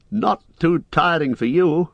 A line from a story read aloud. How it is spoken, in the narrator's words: the elves answered, laughing